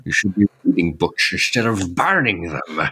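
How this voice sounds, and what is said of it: Imitates another person's voice. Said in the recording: “that is a top-notch Sean quote ... whenever I do a Sean Connery impression.”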